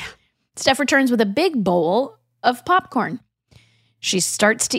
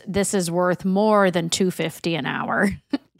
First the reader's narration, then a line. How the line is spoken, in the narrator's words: DJ mutters